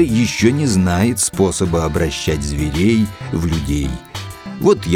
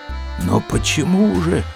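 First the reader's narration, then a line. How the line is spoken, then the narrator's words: Quiet inquiry. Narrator (Russian): тихо осведомился черный человек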